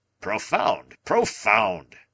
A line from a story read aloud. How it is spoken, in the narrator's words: cried Challenger